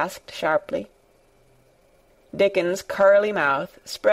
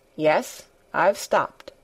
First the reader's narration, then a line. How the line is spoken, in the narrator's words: said Colin